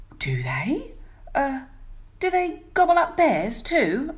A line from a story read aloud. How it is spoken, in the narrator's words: asked the bear nervously